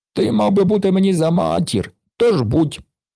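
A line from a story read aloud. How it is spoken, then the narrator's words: Moaning. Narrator (Ukrainian): простогнав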